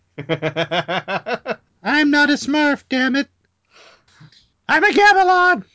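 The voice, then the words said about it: High-pitched cartoon character voice. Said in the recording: “They would all talk in a high voice.”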